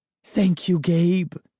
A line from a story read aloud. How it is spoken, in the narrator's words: she cried